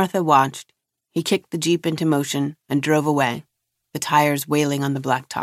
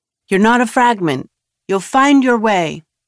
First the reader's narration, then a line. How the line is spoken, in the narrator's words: Enoch called out